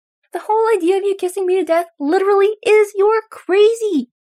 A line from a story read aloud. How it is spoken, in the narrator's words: Derek yells back, knowing that yelling at someone as distraught as Styles is not helpful, but unable to stop himself from doing it